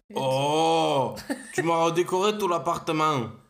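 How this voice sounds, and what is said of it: Deep manly voice with southern French accent. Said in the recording (French): “combo viril et du sud ... ce haut d'outre-tombe ... On dirait une bête sauvage.”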